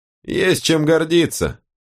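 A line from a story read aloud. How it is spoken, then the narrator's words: Priestess scoffing. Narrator (Russian): фыркнула жрица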